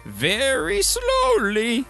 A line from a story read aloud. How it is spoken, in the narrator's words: the other, making believe he was Harold, would answer in a crazy voice